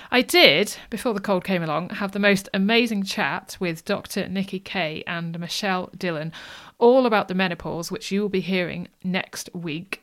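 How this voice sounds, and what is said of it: Sick, congested-sounding voice. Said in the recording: “I was feeling a bit under the weather. I don't know, you might be able to hear it in my voice ... Having a cold just sucks”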